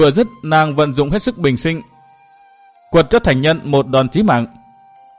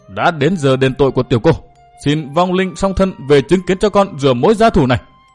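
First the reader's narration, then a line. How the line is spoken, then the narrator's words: Frenzied girl, harsh voice. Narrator (Vietnamese): người con gái điên cuồng có tên là Tiểu Yến gằn giọng thốt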